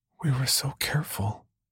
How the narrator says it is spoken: Brenda whispered

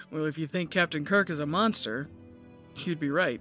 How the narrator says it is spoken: The guy chuckled and said

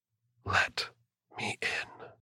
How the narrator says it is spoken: the creature that whispered

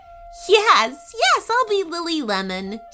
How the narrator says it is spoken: giggled

